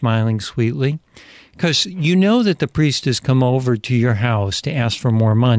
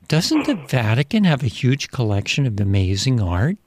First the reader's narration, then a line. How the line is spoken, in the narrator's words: smiling sweetly